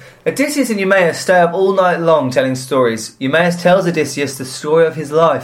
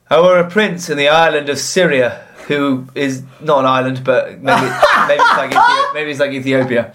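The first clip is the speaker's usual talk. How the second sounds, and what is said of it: Put-on Yorkshire accent. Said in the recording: “Can you do it in Eumaeus' Yorkshire accent”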